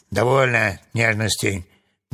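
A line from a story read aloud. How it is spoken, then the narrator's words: Rough shout. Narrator (Russian): грубо закричал Урфин Джюс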